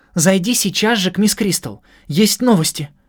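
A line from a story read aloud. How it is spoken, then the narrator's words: Excited exclamation. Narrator (Russian): взволнованно воскликнула она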